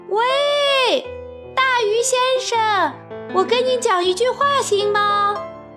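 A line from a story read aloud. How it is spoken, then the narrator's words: Loud shouting. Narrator (Chinese): 木偶高声大叫，让他听见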